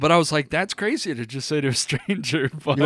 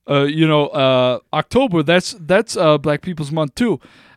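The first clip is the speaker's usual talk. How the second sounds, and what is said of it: Imitates another person's accent. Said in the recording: “the accent ... as I told the story, I did the accent a little more”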